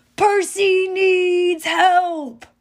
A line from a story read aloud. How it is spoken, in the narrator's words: Tyson yelling